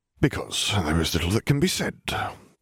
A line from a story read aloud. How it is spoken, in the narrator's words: he muttered